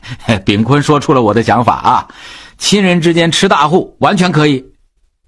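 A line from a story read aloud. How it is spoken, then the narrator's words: Laughing. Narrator (Chinese): 小光笑着说道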